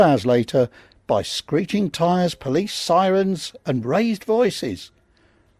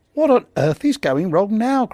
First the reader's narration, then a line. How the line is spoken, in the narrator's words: groaned Lee